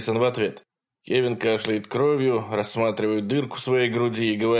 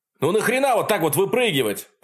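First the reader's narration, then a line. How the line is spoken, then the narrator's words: Indignant yelling. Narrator (Russian): продолжает возмущенно вопить Джейсон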